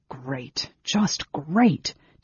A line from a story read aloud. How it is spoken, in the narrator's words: Tanis muttered